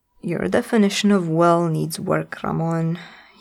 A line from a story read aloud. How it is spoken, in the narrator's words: growled